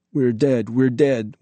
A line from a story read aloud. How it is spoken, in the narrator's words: whimpered Ambrose, shivering